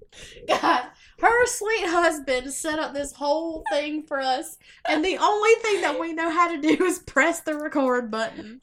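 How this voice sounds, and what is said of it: Strong Southern US accent. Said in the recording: “we are so Southern... I'm horrible... My accent is...”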